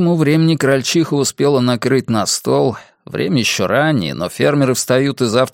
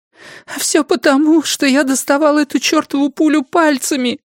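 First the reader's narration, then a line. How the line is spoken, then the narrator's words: Sobbing. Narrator (Russian): всхлипнула крольчиха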